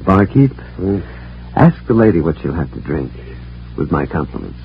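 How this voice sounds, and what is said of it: Refined upper-class Harvard accent. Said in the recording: “I'll bounce him out on his Harvard accent.”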